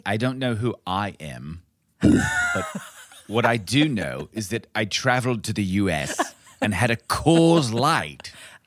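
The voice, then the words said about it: Clipped British accent, Olivia Colman's Queen. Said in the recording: “my British accent has never been good ... It's more clipped ... like Olivia Colman as the Queen”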